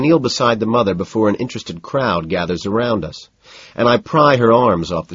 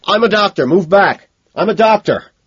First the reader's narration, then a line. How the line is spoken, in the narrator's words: I find myself shouting out, my voice heavy with emotion